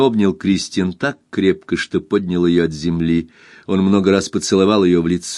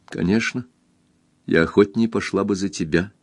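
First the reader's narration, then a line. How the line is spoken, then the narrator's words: Quiet. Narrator (Russian): тихо сказала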